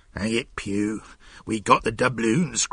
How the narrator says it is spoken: grumbled one

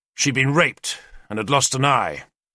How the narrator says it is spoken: I said bitterly

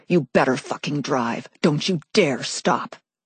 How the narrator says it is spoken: My father said through gritted teeth

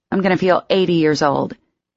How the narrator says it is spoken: she grumbled

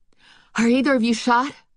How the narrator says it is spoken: asked breathlessly

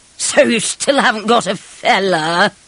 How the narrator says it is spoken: he boomed

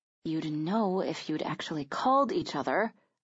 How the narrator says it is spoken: I mumbled under my breath

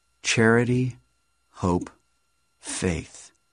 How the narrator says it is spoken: Artemis said, reciting the words slowly

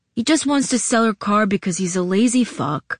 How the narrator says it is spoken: Rush muttered under his breath

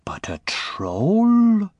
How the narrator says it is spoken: She exclaimed

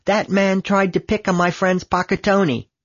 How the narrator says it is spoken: Martin's ... shouting

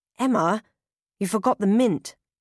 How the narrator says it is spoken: says Connor

